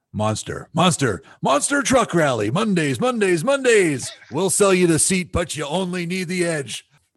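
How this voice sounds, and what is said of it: Announcer-style radio voice. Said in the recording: “Let's hear your radio voice”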